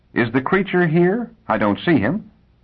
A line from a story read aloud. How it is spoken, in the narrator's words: Hoskins said in a thin voice